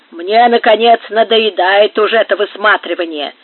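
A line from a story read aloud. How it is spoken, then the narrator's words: Grumbling guard. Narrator (Russian): ворчал один из караульных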